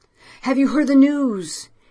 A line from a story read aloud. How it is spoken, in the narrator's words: He cried immediately, like a man about to fall over a cliff